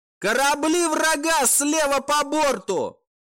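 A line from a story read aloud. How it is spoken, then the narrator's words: Hysterical shout. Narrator (Russian): истерично прокричали с пульта сканирования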